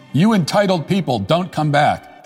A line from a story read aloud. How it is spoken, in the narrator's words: he literally jumps and shouts